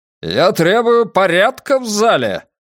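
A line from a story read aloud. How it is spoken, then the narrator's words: Roar. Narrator (Russian): взревел он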